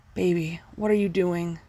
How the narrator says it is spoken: he moaned

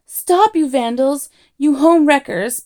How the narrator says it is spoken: bawled Arthur

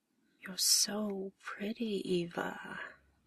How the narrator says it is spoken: murmurs

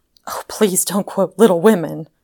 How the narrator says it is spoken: cried Marjorie impatiently

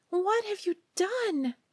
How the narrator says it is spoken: she cried

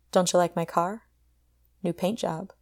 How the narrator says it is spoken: he said

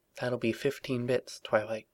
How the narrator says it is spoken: Rosalk said, keeping her voice low

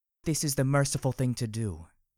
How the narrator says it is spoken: she said calmly, her lips curled into a snide grin

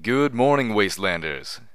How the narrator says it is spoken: Homage cried into the mic, her voice now male and very familiar

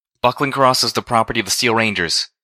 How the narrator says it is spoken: one of them called out, her own voice magnified by the armor she wore

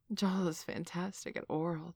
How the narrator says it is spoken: Tori purred

